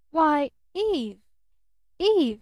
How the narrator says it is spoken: he stammered

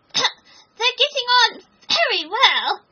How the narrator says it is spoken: he said in a choking voice

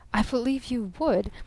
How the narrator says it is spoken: said Barton, with a sudden sobriety more packed with mirth than any laugh he had ever laughed

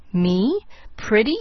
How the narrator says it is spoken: scoffed the woman bitterly

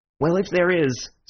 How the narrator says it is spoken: said Bull impatiently

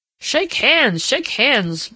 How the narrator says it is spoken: boomed Uncle Aubrey from across the table

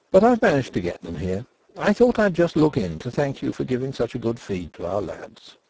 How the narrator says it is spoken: said Denry calmly

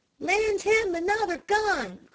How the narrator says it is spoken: cried several voices

